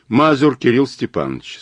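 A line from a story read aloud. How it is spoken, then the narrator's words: Plain. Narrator (Russian): сказал Мазур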